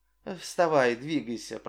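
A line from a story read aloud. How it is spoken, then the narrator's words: Muttering. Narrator (Russian): пробормотала она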